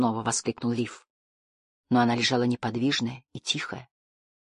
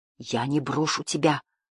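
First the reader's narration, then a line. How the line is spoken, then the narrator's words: Boy whispering. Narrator (Russian): прошептал мальчик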